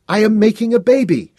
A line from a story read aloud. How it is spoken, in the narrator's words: cried